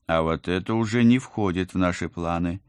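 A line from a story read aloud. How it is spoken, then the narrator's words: Menacing woman. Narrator (Russian): грозно сказала я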